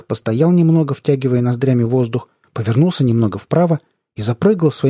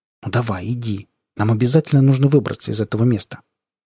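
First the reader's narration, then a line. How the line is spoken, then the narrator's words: Quiet gentle. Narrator (Russian): тихонько сказал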